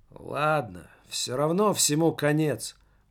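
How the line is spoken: Weary teenager. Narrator (Russian): устало сказал подросток

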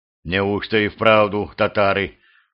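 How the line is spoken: Muttered. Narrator (Russian): пробормотал боярин

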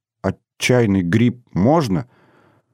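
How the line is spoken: Timid question. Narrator (Russian): робко спросил Кацман

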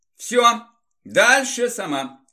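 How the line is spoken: Calm, confident. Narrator (Russian): спокойным, уверенным тоном сказал парень

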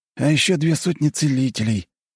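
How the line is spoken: Sad weary sigh. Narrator (Russian): грустно и устало вздохнул Андрюха

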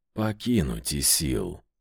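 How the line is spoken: Barely audible rustling whisper. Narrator (Russian): прошелестел едва слышно элементаль

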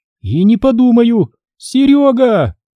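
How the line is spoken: Sudden yell. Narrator (Russian): Вдруг завопила она

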